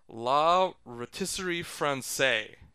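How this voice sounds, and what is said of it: Good put-on French accent. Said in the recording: “That's a very good French accent you have.”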